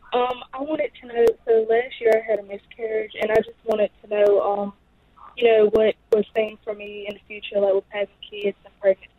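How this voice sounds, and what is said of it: Cute regional American accent. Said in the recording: “Love your accent, so cute.”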